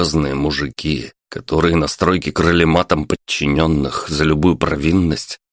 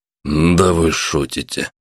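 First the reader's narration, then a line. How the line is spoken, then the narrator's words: Breathless. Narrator (Russian): выдохнул Роберт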